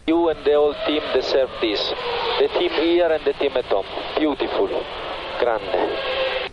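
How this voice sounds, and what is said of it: Italian-accented English. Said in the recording (Spanish): “me gusta el acento italiano de”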